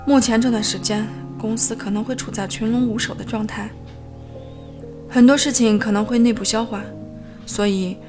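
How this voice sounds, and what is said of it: Quiet, hushed voice. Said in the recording (Chinese): “小声叮嘱道”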